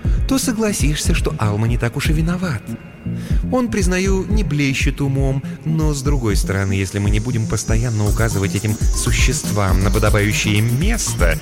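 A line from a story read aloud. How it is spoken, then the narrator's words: Ingratiating, insinuating. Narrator (Russian): вкрадчиво произнесла Ния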